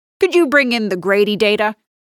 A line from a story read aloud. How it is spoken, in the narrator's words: barks